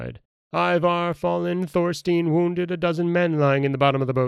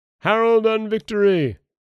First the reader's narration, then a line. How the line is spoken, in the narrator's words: They shouted